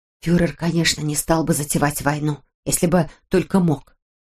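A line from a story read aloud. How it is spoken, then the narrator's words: Whisper. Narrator (Russian): прошептала Теодора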